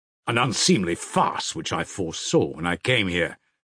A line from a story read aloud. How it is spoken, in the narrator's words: cried Dmitri indignantly